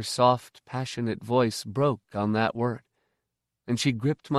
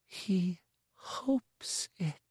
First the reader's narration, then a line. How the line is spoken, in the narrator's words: she repeated in a whisper